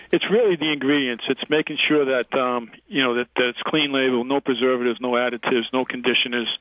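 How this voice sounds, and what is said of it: Boston accent. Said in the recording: “Our listeners can hear the Boston accent.”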